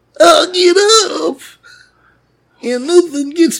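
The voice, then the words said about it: Imitates another person's singing voice. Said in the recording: “That was my Sammy Hagar impression. That wasn't my singing voice.”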